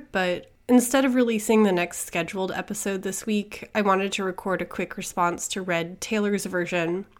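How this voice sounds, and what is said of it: Slightly weird, sick-sounding voice. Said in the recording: “I'm recovering from a cold, so my voice sounds a little weird”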